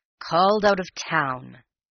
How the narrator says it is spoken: he grumbled

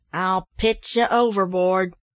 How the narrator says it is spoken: said a sailor sternly

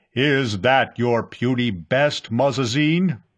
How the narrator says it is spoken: the booming voice demanded

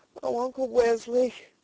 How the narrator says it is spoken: sobbed the girl

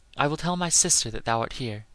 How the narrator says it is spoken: said she

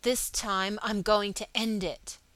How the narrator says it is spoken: he spoke aloud and through his teeth

